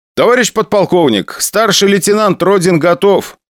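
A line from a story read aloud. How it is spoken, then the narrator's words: Loud. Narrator (Russian): громко дал свое согласие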